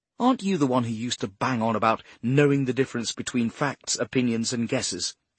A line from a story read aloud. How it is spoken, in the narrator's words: She snapped